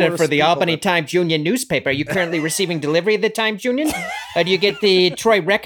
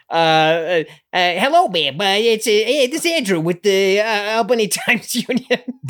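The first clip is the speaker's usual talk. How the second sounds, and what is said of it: Exaggerated old-timey New York newsie accent. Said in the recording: “that old timey New York accent? ... we all had these like horrific newsies accents. ... the accent that a child would take in pretending to be an adult.”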